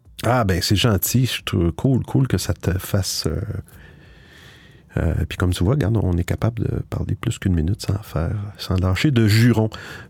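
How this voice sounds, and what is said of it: Strong distinctive French accent. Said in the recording (French): “J'adore votre accent, il est terrible... ça me fait planer votre accent.”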